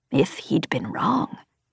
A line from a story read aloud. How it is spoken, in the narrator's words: Grangran whispered